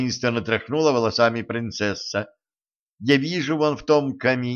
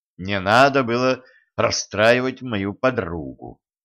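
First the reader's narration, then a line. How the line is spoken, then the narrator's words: Sympathetic sigh. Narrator (Russian): сочувственно вздохнул Денис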